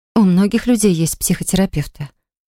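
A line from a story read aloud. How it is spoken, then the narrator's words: Soft. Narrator (Russian): мягко заметила Полли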